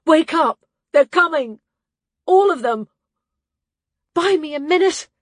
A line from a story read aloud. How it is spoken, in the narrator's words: She gasped the words out